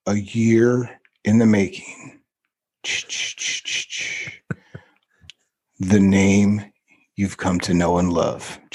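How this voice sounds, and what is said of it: Dramatic radio announcer voice. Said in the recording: “I'm going to do my radio announcer voice. ... This sounds like Friday the 13th, bro.”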